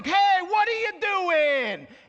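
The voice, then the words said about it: Emphatic New York accent. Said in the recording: “brings out my inner New Yorker. There's just something about the accent that just kind of puts some extra special emphasis on it.”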